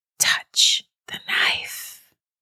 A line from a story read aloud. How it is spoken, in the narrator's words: the whisper said in a long, drawn-out hiss